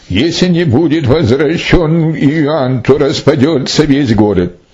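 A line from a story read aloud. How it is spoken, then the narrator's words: Loud crowd wailing. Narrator (Russian): весь народ стал вопить громким голосом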